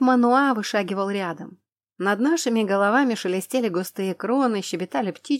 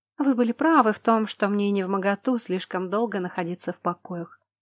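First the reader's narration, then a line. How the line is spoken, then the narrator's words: Soft, smiling. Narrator (Russian): мягко улыбнулась я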